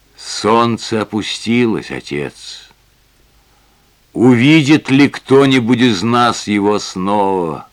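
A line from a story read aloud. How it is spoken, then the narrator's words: Sad. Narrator (Russian): Маргарет печально сказала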